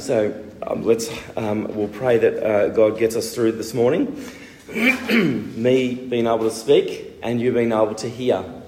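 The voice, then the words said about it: Strained, bad-sounding voice. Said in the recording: “My voice is really bad today”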